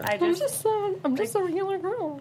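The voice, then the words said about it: High goofy female imitation voice. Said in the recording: “That was her Zoe Deschanel impression... You sound like goofy... Like a female goofy... like the high goofy”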